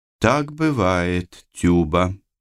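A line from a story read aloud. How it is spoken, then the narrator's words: Soft. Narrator (Russian): мягко сообщила ему та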